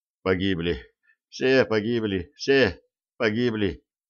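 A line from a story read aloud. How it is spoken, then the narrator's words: Numb muttering. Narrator (Russian): бормотал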